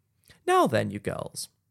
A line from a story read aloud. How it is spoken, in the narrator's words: said our friend Bao to them, cheerfully